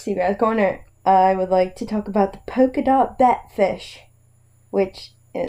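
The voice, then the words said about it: Slight put-on British accent. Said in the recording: “Did you just go to a British accent? ... A little bit. ... I definitely heard it.”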